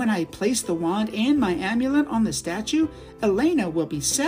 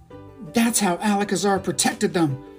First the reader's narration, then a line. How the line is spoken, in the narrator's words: Shiriki snarls